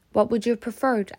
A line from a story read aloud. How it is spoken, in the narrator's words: asks Pippin